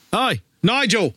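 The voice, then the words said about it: Mixed Australian British put-on accent. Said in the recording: “Nice Aussie Kiwi British accent.”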